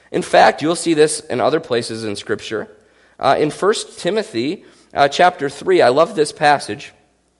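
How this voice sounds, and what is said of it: Voice in poor condition. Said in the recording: “I know you can tell my voice is not great today.”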